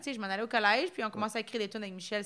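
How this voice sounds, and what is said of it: Franco-Ontarian French accent. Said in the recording (French): “Mon accent franco-ontarien.”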